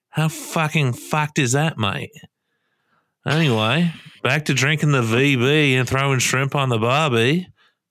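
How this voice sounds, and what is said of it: Put-on Australian accent, poorly done. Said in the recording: “That was a good, really good Australian accent. ... No, it wasn't. It was terrible. ... Aussie accent.”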